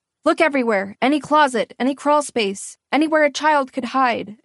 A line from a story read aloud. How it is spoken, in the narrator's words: an officer barked